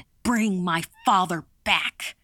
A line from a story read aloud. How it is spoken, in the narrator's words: shouted